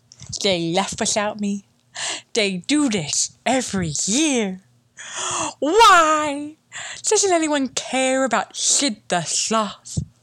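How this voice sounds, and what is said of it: Poor cartoon sloth character voice. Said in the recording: “my shit impression”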